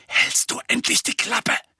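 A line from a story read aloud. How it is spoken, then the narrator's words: Hiss. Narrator (German): zischte Harry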